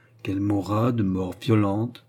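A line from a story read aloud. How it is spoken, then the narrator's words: Slow. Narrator (French): fit-elle lentement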